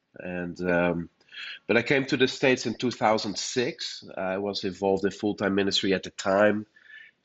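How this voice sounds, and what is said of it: Dutch accent. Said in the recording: “I was born and raised in the Netherlands. That explains my accent.”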